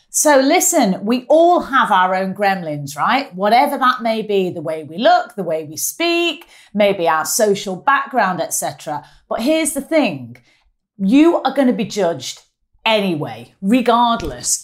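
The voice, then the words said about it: Strong Mancunian accent. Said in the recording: “as you can tell from my dulcet tones, quite a strong Mancunian accent”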